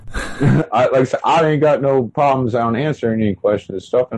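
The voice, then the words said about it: Southern American accent. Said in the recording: “excuse my accent and everything because I am from the South”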